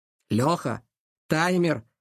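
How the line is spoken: Snorting. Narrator (Russian): Илья фыркнул

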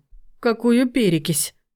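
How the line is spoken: Moaning. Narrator (Russian): простонал Вадим

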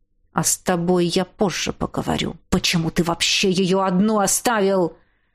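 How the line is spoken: Hissing. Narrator (Russian): Прошипел

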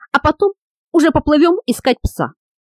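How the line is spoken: Hissing. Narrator (Russian): прошипел Хейграс

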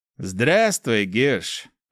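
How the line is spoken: Through gritted teeth. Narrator (Russian): процедил кельт

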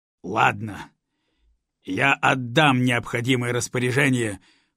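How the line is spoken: Commandant's barely restrained growl. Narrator (Russian): уже едва сдерживаясь, прорычал комендант

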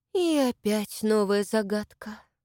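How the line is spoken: Sighing. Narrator (Russian): вздохнула Маша

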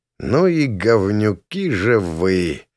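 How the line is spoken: Muttering. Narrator (Russian): пробормотал я

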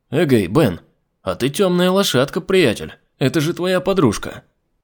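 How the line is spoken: Loud good-natured exclamation. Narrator (Russian): Добродушно воскликнул он достаточно громко, чтобы Дархан услышала

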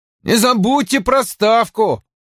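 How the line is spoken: Loud. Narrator (Russian): громко сказал

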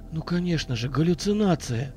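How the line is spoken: Relieved whisper. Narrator (Russian): Облегченно прошептал я

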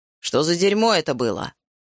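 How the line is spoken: Barked. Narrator (Russian): рявкнул

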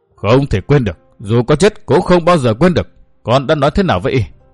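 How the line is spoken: Angry old woman. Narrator (Vietnamese): Lão bà giận dữ nói

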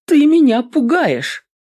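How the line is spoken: Sudden loud laughter. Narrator (Russian): Джеймс вдруг захохотал

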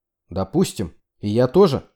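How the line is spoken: Angry snap. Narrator (Russian): зло огрызнулся

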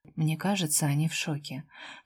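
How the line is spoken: Very quiet private whisper. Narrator (Russian): прошептала совсем тихо, только для него одного

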